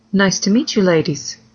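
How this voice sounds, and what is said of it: Perfect English accent. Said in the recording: “in a perfect English accent”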